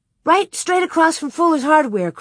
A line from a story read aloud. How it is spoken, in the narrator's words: cried Carrie